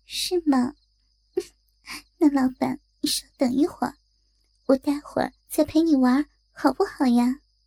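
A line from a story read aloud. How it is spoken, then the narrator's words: Coquettish giggle. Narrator (Chinese): 对小华娇笑着说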